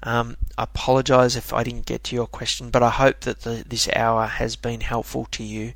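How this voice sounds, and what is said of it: Strained, fading hoarse voice. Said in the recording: “I'm slowly or quickly losing my voice here”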